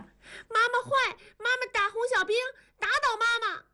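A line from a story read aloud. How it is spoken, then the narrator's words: Crying and shouting. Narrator (Chinese): 燕妮哭喊着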